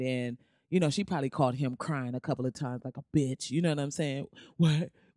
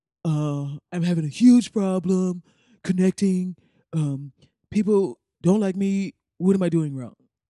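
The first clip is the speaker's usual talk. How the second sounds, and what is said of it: Imitates another person's voice. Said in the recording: “I can't do his voice. ... That's my closest Trump, right?”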